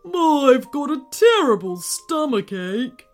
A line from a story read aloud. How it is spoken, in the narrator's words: grumbled the volcano